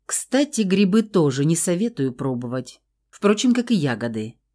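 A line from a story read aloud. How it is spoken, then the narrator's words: Calm, unbothered. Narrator (Russian): спокойно сообщил Фауст, ничуть не задетый нашей издевкой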